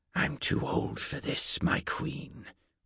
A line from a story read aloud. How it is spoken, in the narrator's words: Gwell whispered